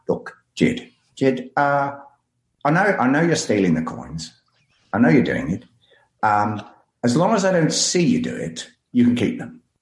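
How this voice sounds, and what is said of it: Peter Jackson impression. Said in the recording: “I'll do my best to do a Peter Jackson impersonation. It's quite difficult.”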